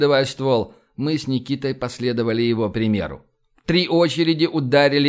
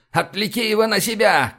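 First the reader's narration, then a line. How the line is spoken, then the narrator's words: Shout. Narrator (Russian): крикнул Шнобель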